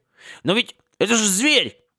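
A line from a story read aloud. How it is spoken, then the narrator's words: Offended. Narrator (Russian): обиженно произнес Харли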